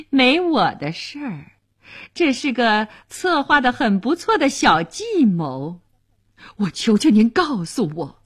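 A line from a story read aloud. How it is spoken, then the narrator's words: Laughing. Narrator (Chinese): 乐里夫人笑了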